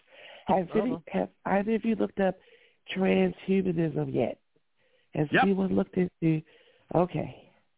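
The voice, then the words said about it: Sick, strained voice. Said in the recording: “I apologize for my voice. I'm under the weather.”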